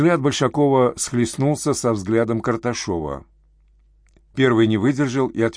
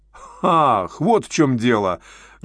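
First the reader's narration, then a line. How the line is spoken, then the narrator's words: Loud laughter. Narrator (Russian): расхохотался он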